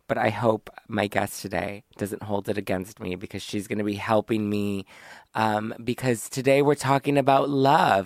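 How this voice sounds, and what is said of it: Weak, mostly lost voice. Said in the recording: “I had an awful flu over the weekend ... My voice is still gone.”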